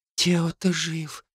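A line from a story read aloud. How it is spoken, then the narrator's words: Whispered. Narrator (Russian): прошептала она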